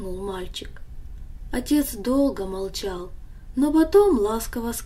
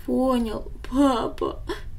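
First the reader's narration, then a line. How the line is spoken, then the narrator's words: Child's sob. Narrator (Russian): всхлипнул мальчик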